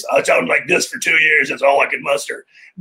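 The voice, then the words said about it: Froggy, croaky voice. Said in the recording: “So I had a froggy voice.”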